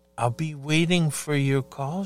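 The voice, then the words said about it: Soft, sultry voice. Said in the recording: “in a real soft voice, really sexy”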